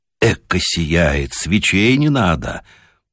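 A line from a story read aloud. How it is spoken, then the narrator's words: Muttered. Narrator (Russian): пробормотал Ледащев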